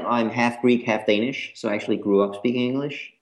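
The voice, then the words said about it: American English accent. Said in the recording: “My accent is American.”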